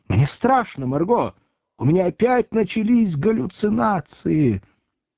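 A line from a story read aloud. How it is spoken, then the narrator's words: Choked sobbing. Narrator (Russian): Рыдания душили Маргариту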